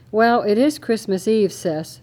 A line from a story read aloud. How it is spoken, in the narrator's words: Jeremy chuckled